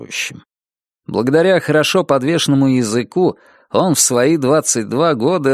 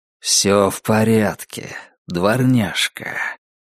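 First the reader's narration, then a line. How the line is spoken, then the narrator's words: Low mesmerizing voice. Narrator (Russian): произнес он все тем же низким и завораживающим голосом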